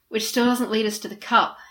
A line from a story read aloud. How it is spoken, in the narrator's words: Harry sighed